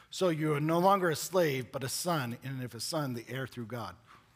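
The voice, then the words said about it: Strained voice, losing his voice. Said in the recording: “I'm losing my voice.”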